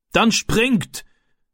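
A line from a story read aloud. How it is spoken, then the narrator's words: Man shouting. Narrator (German): rief der Mann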